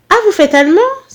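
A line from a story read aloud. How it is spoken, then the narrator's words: Surprised exclamation. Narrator (French): s'exclama la mère à rien surprise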